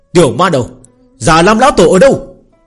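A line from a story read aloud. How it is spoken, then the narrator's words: Powerful icy shout. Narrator (Vietnamese): một đạo khí cơ cường đại lạnh thấu xương bao phủ xuống, hét lớn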